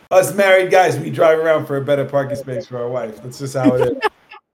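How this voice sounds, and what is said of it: New York accent. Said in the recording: “I like the New York coming out of you too ... the way you talk, your accent”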